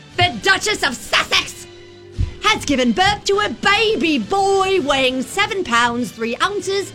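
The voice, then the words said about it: British accent. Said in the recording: “all things British and across the pond ... she is the one with the accent.”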